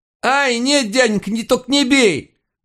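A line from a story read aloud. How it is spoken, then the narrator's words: Howling in pain. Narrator (Russian): Взвыл долговязый парень неопределенного возраста в драной одежке, когда я на автомате заломил ему кисть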